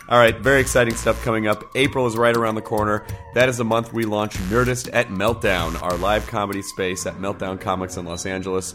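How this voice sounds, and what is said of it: Hoarse, strained voice. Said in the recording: “my voice is kind of blown out. That's mainly because I did 12 stand-up shows last week.”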